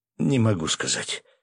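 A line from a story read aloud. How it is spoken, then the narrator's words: Quiet, strained admission. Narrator (Russian): наконец тихо выдавил мужичок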